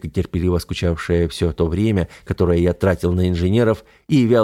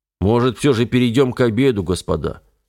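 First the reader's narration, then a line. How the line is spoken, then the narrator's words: Displeased host's reminder. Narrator (Russian): напомнил начальник полигона недовольным тоном на правах гостеприимного хозяина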